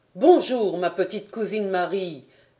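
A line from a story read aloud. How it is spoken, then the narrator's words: Immediate exclamation. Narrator (French): s'écria-t-il aussitôt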